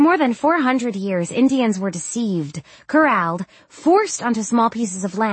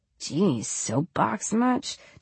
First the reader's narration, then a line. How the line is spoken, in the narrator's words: Tyler mutters